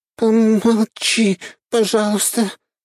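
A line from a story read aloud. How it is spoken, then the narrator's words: Moaning. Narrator (Russian): простонала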